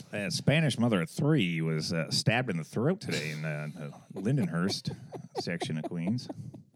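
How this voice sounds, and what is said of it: Impression of the other host. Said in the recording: “you do a me impression. ... Not bad. ... There's some nuances that I'm going to got to get out.”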